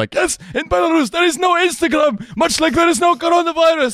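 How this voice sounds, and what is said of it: Imitates another person's voice. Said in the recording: “doing my Lukashenko impression”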